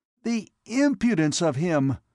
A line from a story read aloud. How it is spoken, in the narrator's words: he exclaimed